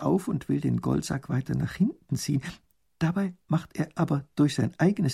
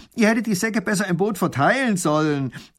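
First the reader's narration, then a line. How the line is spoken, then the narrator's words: Robber calling out. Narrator (German): ruft der Räuber, als er es merkt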